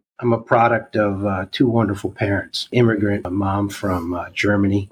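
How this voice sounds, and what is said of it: New York accent. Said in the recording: “I'm from New York, if you can't detect it from my accent.”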